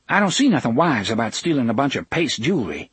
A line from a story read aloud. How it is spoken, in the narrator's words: she said sharply